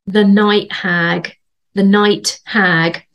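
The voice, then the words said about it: Put-on Bedford accent. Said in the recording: “That was my Bedford accent.”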